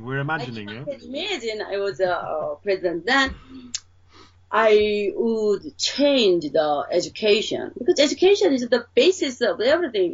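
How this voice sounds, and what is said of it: Strong Korean accent. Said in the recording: “I have a strong accent, Korean accent.”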